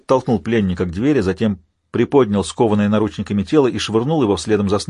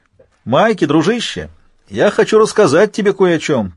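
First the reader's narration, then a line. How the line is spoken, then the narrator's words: Shouting. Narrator (Russian): прокричал Альфа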